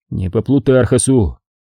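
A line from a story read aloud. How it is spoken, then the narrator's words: Sighing. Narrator (Russian): вздохнул Дмитрий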